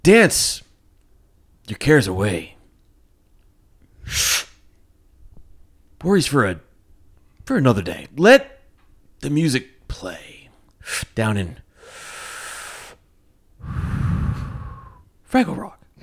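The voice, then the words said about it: Bad William Shatner-style singing impression. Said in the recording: “I'd do like a Kirk. Kirk. ... Shatner. ... like a Shatner, ... Shatnerization. ... Is this ... bad impression?”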